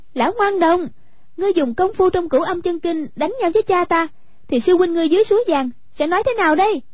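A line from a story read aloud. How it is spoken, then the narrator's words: Crying out. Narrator (Vietnamese): Hoàng Dung kêu lên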